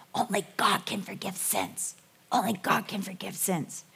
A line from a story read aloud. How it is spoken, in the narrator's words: the people begin to whisper to each other